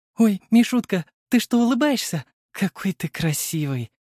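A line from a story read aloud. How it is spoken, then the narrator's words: Mother joyfully blurting. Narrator (Russian): Радостно выпалила мама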